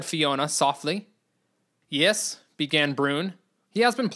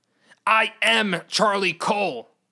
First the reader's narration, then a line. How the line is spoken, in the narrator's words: the man shouted again